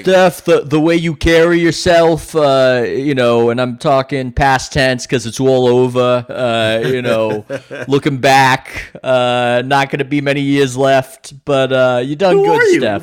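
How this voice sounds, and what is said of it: Bad put-on New York accent. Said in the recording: “basic New York, bad New York accent”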